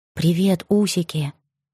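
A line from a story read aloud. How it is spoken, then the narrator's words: Whisper. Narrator (Russian): прошептала я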